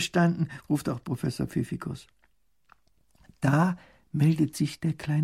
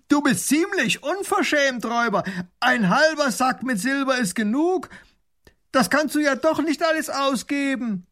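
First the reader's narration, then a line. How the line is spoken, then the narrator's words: Shouting through cupped hands. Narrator (German): Baron von Raffigny legt die Hände als Trichter an den Mund und ruft hinüber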